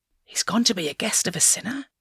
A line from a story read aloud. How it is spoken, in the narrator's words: began to mutter